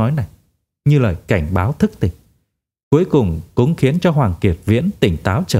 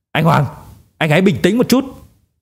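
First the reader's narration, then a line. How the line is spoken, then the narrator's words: Loud roar. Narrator (Vietnamese): La Phi cất cao giọng gầm lên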